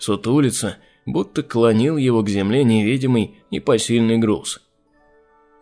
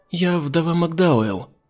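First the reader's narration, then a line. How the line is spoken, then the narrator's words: Timid woman. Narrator (Russian): робко проговорила женщина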